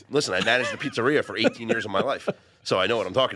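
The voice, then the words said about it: Regional accent. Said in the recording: “that's where you got that accent.”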